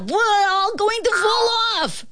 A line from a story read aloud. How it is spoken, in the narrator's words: screamed the ant